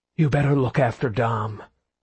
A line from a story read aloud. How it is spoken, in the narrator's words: Carlos panted